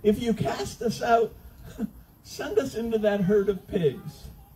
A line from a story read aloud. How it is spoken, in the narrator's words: So the demons begged